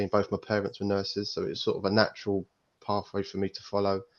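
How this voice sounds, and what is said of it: East London accent. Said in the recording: “my accent is certainly not a Yorkshire accent. ... I'm originally from the East End, East London”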